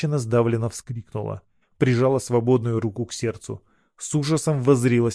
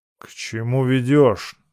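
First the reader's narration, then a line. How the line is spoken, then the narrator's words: Angry blacksmith asking. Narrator (Russian): сердито спросил кузнец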